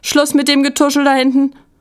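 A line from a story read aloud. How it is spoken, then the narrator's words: Calling out. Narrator (German): rief Frau Rose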